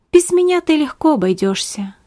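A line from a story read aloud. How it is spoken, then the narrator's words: Sad objection. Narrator (Russian): грустно возразил Беппа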